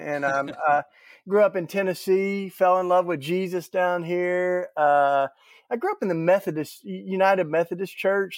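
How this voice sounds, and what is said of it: Southern US drawl. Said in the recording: “the nice southern drawl”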